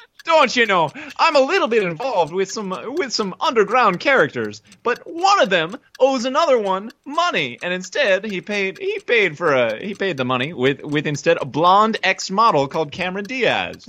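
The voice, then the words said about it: Put-on bad Irish accent. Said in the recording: “in the style of a violent, blundering Irish cop, and your accent can be as bad as Dan Aykroyd if necessary”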